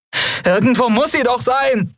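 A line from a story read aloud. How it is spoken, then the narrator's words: Called out. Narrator (German): rief sie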